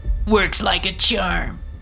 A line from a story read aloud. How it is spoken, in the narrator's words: said with a sneer